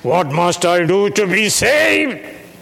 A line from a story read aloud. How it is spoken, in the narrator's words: He cried out in the middle of the night